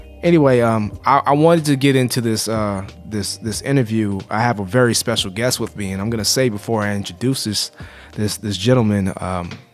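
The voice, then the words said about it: Rough, unwell-sounding voice. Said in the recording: “You have to pardon my voice in advance, please. I am recovering from being a little under the weather... I sound worse than I feel.”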